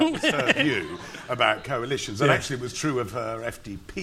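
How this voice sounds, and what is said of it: Usual voice. Nothing is said of it.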